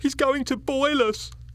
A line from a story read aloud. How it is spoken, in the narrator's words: cried